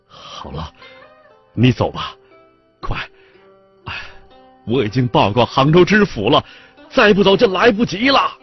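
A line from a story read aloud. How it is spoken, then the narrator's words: Choked with tears. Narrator (Chinese): 赛金金哽咽道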